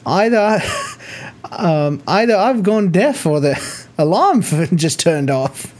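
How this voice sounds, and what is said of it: Poorly imitated old British woman's accent. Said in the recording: “this little tiny old British lady suddenly goes, and I'm going to butcher the accent ... terrible, terrible accent.”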